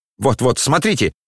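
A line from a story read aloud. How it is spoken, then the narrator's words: Shout. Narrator (Russian): крикнул Евгений Павлович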